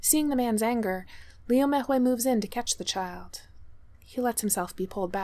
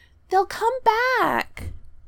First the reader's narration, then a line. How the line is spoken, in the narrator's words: the child wails